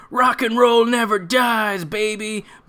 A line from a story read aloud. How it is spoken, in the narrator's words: he screams